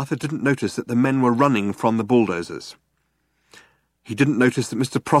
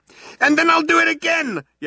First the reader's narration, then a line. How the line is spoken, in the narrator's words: yelled Arthur